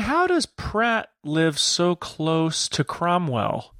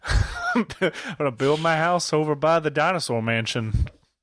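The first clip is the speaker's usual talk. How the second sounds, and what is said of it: Savannah accent imitating Chris Pratt. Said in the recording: “doing a Savannah accent for Chris Pratt”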